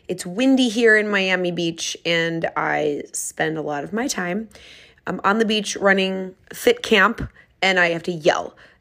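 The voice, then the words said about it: Raspy, crackly voice. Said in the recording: “My voice sounds a little bit raspy again. ... today I'm extra crackly”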